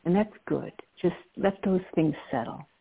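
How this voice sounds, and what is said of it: Slow, calm, settling voice. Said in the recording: “you can hear in my voice as I'm slowing down my own breath how we settle down”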